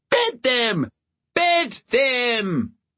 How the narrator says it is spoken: half the wedding guests were on their feet and shouting

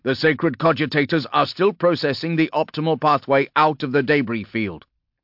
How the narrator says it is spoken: blurted one of the tech priests

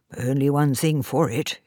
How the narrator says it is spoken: he muttered

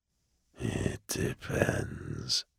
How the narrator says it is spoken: the casket murmured

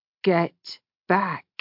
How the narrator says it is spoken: he said in a low and deadly voice

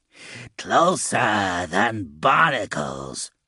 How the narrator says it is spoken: Spume snarled

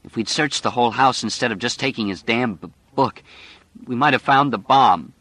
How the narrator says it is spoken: she said, and her voice began to choke and break

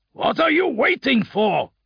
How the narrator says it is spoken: he roared

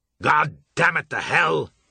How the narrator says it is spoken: he roared

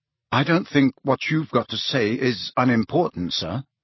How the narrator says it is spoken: said Harry stiffly

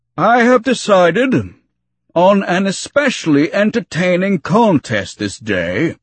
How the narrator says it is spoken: he announced to more appreciative roaring

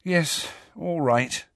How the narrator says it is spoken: said Hermione wearily

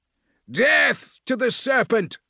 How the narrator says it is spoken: a voice cried out

